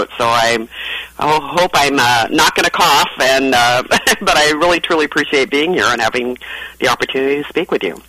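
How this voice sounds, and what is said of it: Slightly sore, strained throat voice. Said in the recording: “I've got a little bit of a sore throat”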